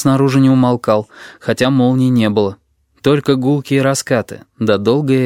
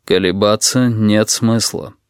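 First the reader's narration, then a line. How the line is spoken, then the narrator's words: Calm. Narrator (Russian): спокойно добавил он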